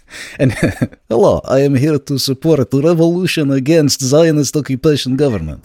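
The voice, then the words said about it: Put-on Russian accent. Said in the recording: “Russian accent”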